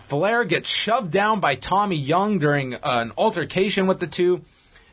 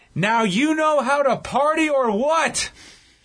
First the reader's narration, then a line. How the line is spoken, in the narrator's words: yells to the crowd